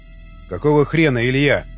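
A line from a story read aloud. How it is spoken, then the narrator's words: Angry growl. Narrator (Russian): зарычал он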